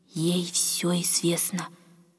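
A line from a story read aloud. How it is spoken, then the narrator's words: Old woman's meaningful whisper. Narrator (Russian): многозначительно прошептала старушка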